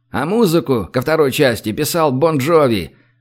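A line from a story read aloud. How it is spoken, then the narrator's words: Joyful shout. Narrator (Russian): радостно крикнул Гош, убегая к транспортеру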